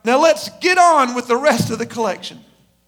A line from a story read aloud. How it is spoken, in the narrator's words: A guy shouted out